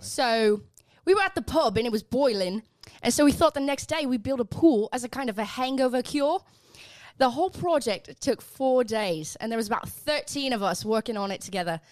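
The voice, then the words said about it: Put-on British accent. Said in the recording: “I'm going to read this in a British accent”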